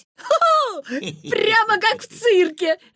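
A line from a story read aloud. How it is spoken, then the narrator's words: Laughing. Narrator (Russian): засмеялся Витя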